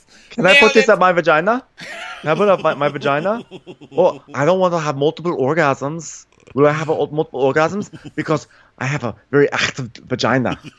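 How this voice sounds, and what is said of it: Unidentified put-on comic accent. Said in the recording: “I don't know what accent I'm doing, but I'm just gonna go with it.”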